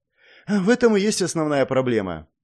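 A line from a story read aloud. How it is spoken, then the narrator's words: Sighing. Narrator (Russian): вздохнула она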